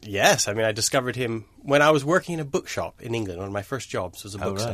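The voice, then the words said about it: Slightly transatlantic accent. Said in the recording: “the slightly transatlantic, ... very strange accent.”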